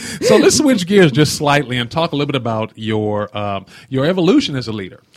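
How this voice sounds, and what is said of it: Speaks with a noticeable accent. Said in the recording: “they tell me I have an accent as well, and I know I do”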